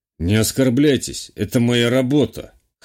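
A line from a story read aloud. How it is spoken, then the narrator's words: Amused snort. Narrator (Russian): хмыкнул полицейский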